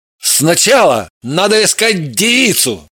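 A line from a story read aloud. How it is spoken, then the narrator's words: Indignant exclamation. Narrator (Russian): Воскликнул Евгений и возмутился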